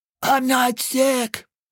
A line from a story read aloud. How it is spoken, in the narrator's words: croaked